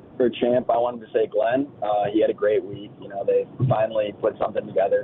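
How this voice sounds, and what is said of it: Hoarse, partly lost voice. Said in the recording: “my voice is a little gone. I was in Nashville all weekend.”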